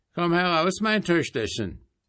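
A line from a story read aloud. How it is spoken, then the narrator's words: Called out. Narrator (German): rief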